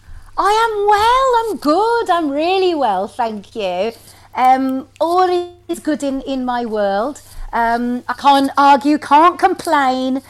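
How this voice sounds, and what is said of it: Speaks with a distinct accent. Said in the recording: “I love your accent.”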